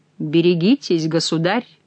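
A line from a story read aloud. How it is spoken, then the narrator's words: Suspicious warning. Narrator (Russian): сказал Келюс, заподозривший под елейным тоном Шико какую-то злую шутку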